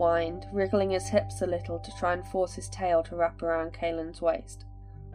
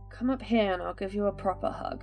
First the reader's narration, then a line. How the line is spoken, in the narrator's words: Kaelin slurred back, and Micah could tell he was nearly half asleep